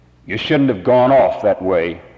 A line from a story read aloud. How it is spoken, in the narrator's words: growled